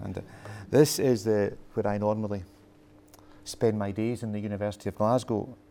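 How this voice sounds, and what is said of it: Scottish accent. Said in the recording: “Good morning in a Scottish accent for you.”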